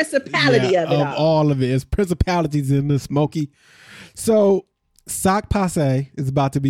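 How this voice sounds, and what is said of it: Usual voice. Nothing is said of it.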